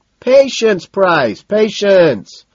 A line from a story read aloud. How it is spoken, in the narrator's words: Madison shouts